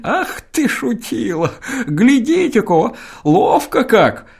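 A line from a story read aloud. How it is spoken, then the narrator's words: Old man's sobbing laugh. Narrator (Russian): Чистенький старичок Кешин засмеялся мелким, всхлипывающим смехом, восклицая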